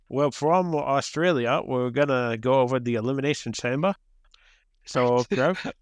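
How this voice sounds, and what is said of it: Put-on Australian accent. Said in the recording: “are you doing your Vince Russo with his Australian accent? ... I just said do an Australian accent”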